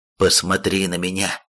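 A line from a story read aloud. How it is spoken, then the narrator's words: Stern ruler. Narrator (Russian): строго произнес повелитель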